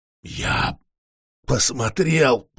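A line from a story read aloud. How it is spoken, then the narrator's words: Hoarse rasp. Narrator (Russian): прохрипел вампир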